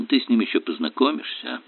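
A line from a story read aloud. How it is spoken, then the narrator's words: Gloomy promise. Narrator (Russian): мрачно пообещал Эллери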